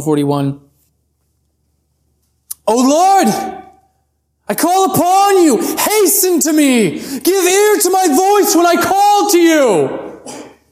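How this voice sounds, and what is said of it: Urgent, pleading reading tone. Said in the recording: “There's a little bit of urgency there in case you couldn't hear it in my tone.”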